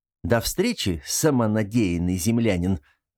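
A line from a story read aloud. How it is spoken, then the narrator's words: Laughing. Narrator (Russian): засмеялся он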